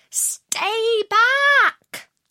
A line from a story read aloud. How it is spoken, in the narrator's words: The other two shouted